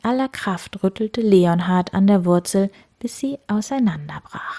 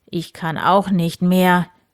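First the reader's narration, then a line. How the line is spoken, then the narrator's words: Breathless groan. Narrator (German): stöhnte Graf Eberhard und blieb atemlos stehen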